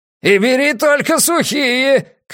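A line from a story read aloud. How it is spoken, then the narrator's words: Shouting after someone. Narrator (Russian): крикнул ему вслед Пузан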